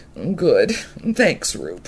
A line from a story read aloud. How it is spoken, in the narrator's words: Sadie, tired herself now that her problem was in someone else's capable paws, whimpered